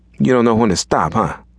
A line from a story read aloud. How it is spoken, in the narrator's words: chuckled